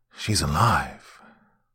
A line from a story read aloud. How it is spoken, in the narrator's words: I whispered into the dead of night